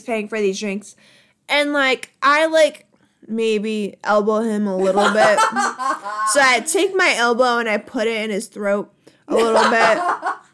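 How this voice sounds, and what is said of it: New Jersey accent. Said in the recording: “I don't know what that accent is ... I don't know why I have a Jersey accent, like, 95% of the time.”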